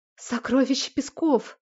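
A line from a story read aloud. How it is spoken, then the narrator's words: Women's admiring breath in unison. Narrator (Russian): восхищенно выдохнули в унисон женщины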